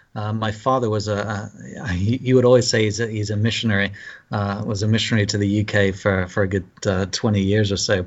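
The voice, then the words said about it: British accent. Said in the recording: “As you could probably pick up from my accent, I'm from the UK.”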